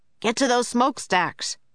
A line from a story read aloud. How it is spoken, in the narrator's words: cried Jack